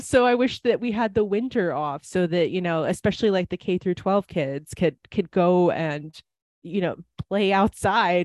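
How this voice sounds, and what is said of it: Wisconsin accent. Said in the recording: “I lived in Wisconsin for a very long time. People might be able to tell that from my accent”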